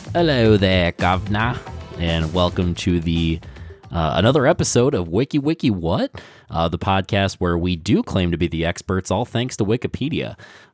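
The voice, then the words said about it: Put-on British accent. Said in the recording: “the immense talent of my British accent”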